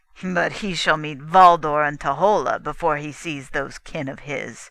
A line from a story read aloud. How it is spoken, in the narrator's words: laughed mockingly